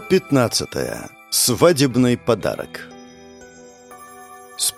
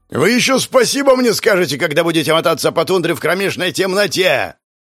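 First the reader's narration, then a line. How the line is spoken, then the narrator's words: Yelling. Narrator (Russian): орал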